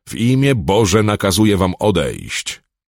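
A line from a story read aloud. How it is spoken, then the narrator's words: Called out. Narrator (Polish): zawołał Callahan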